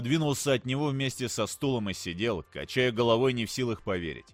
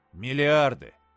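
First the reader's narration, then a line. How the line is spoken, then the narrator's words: Flat, matter-of-fact. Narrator (Russian): уточнил ровным голосом, будто речь шла просто о некоем численном значении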